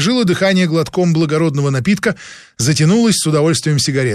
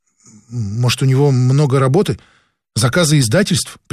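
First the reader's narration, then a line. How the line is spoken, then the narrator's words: Timid suggestion. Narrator (Russian): предположила робко Анна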